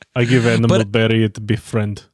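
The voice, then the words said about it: Put-on made-up foreign accent. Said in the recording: “the made up accent I'm going to give the Ark character ... You're trying to do like a Russian accent ... Like a Southern Russian Southern accent”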